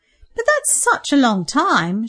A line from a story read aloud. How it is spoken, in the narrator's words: she exclaimed